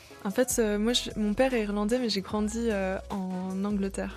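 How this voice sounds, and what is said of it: Slight English accent in French. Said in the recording (French): “tu as encore ce petit accent... C'est un anglais qu'on n'entend pas souvent”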